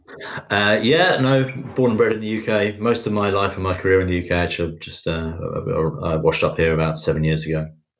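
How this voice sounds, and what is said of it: Non-American accent. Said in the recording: “from the accent that you're not originally from America”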